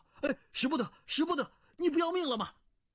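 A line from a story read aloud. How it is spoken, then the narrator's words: Alarmed shout. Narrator (Chinese): 姬晓峰大惊，叫道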